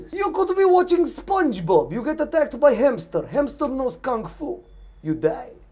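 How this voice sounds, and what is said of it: Put-on Russian accent. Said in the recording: “did you do this joke just so you could do a Russian accent on the podcast? ... Or maybe accent is not Russian, it is Arabic.”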